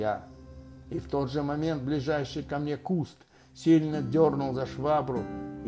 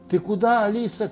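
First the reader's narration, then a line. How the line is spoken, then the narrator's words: Shouted. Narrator (Russian): крикнул я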